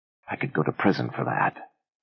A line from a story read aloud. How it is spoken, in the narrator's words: Ben whispered